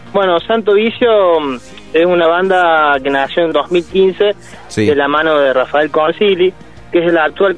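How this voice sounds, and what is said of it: Córdoba Argentine Spanish accent. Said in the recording (Spanish): “la tonada ya me dice de dónde sos, pero ¿de qué parte de Córdoba sos?”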